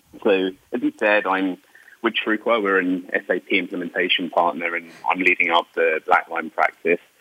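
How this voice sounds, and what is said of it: British London accent. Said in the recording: “I'm originally from the UK, from London, Wimbledon area, to explain the accent”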